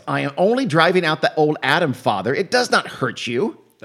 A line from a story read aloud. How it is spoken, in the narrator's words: she yells